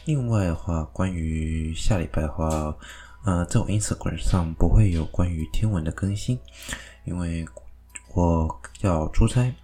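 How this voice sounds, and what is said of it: Quiet, subdued speaking voice. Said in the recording (Chinese): “我声音可能会有点小声，没办法很大声，因为我家人在睡觉”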